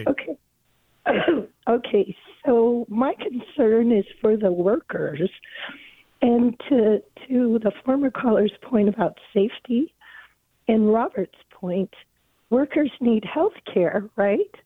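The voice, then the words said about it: Hoarse voice. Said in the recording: “I have a hoarse voice.”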